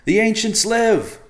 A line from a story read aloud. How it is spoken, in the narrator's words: Evercloud shouted to the sky, wanting to believe